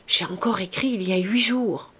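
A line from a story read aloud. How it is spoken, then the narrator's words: Murmured. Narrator (French): murmura-t-elle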